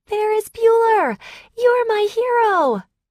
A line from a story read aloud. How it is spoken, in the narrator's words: excitedly and screamed